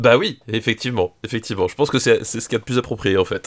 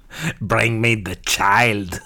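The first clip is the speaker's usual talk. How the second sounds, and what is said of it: Heavy accent, imitates another person's voice. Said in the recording (French): “fort accent, et ça veut dire qu'à un moment ou à un autre, on va imiter Werner Herzog”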